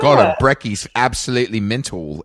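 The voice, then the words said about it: Put-on Australian accent. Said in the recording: “Australians try to steal it from us ... I'm even going to try that accent.”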